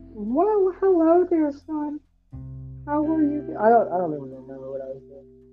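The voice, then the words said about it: Stereotypical old white lady voice. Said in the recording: “you did a stereotypical, like, old white lady accent”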